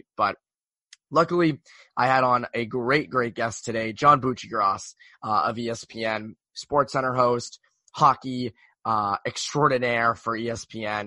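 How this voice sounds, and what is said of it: Very bad, strained voice. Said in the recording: “my voice is very bad right now... I don't know if it's a cold, I don't know if it's allergies... my voice went... my voice is slowly coming back... my voice is not great”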